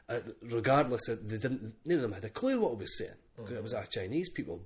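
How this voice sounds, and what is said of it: Scottish accent. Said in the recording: “they want to hear a Scottish person. He says, I can't think anybody more Scottish than you ... all they wanted to hear was a Scottish accent”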